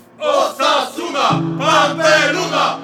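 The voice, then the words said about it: Shouting. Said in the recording (Polish): “zaczęli przez nie krzyczeć”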